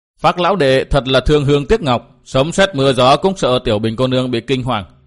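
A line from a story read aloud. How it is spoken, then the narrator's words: Laughing loudly. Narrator (Vietnamese): có người cười to nói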